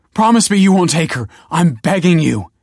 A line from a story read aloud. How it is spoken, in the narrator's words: he cried